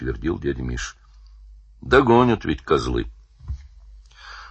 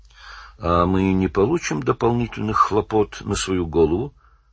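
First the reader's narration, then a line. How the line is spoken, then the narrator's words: Calm question. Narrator (Russian): спокойно спросил Валентин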